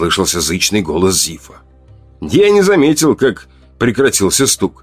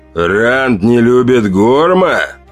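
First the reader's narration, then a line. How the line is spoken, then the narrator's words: Growling. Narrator (Russian): прорычал неандерталец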